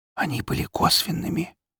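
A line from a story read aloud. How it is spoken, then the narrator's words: Whisper. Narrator (Russian): прошептал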